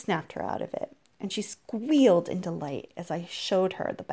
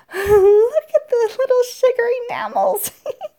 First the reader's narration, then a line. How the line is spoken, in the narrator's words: She giggled